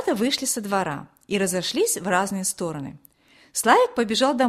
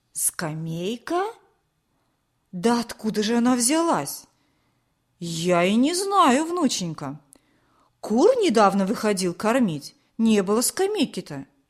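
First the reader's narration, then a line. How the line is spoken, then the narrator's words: Surprised old man exclaiming. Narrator (Russian): воскликнул удивленный дед Борис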